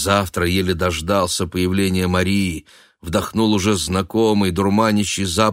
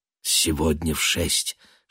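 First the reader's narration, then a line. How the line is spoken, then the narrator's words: Tender whisper. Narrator (Russian): шепнула она, будто нарочно обволакивая каждое слово ласковым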